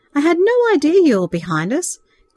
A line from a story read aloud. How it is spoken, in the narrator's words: Craig laughingly explained